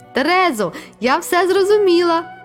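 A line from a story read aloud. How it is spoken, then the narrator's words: Exclaiming. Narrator (Ukrainian): вигукнула я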